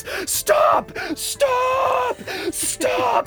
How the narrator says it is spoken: Lekara screams

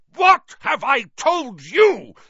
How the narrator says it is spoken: thundered his uncle, spraying spit

